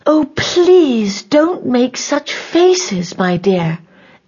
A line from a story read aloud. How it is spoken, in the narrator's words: Alice cried out, quite forgetting that the king couldn't hear her